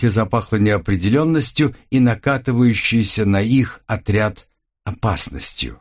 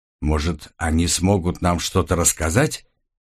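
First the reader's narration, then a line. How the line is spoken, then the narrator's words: Quiet. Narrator (Russian): негромко проговорила Эрса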